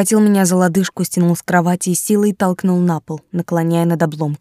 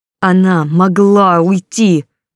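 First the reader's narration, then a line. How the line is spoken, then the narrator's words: Growling again. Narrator (Russian): зарычал снова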